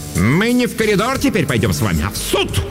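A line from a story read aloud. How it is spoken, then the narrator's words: Angry bark. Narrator (Russian): рявкнула Дурцева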